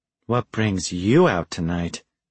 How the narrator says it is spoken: She purred

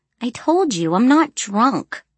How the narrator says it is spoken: I mumbled

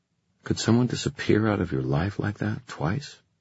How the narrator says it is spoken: She sighed

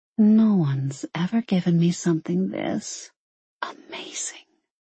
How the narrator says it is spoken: she whispered

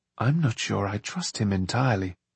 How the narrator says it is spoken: John murmured

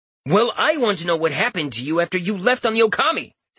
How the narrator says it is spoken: Sion shouted

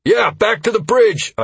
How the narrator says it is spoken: I shouted

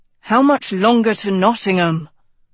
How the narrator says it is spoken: Tedros asked impatiently

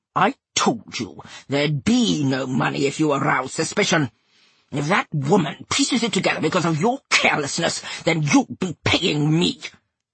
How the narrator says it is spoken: he snarled

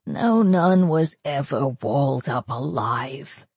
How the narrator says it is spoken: the doctor said sullenly

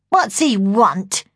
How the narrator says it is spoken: she snarled

